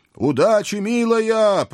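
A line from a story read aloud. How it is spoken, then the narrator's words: Shout after someone. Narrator (Russian): прокричал я ей вслед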